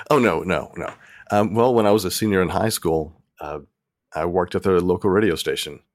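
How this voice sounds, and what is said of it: Polished radio announcer voice. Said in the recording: “such a radio voice”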